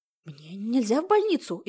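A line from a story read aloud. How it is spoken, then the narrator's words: Frightened cry. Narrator (Russian): испуганно вскрикнула Яна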